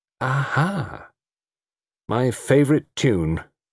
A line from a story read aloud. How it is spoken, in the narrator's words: said Tony Chapel mournfully